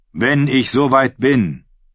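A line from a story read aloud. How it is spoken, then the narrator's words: Calling back. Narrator (German): rief Viktarion zurück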